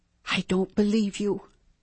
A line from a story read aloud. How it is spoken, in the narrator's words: she whispered